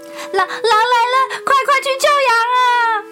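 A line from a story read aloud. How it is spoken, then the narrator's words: Breathless boy shouting. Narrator (Chinese): 男孩气喘吁吁地……对着工作中的村民喊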